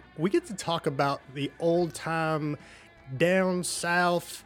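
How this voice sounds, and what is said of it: Weak put-on Southern US accent. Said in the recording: “That's my southern accent. It sucks.”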